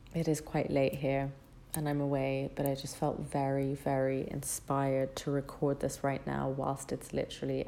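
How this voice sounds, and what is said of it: Whispering, hushed voice. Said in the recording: “excuse me if I'm whispering a little bit”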